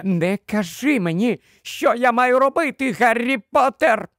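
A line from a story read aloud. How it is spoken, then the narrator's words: Continued shrieking. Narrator (Ukrainian): Продовжувала верещати вона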